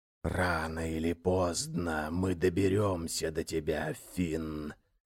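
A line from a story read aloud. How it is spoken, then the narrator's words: Hissing undead chorus. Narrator (Russian): шипели мертвецы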